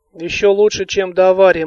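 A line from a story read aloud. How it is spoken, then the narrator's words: Grim smirk. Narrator (Russian): мрачно усмехнулся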